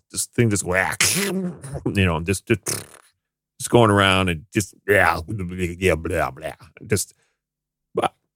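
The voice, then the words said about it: Poor werewolf imitation. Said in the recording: “That's not a very good werewolf imitation”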